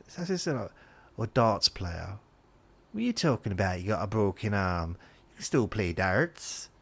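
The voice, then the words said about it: Speaking in a put-on accent. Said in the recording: “I don't know why I've done that accent.”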